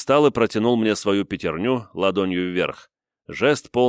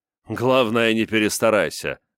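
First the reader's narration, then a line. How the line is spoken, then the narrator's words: Chuckling. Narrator (Russian): хохотнул Дэвид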